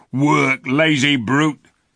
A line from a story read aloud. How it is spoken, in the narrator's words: shouted one of the Calormans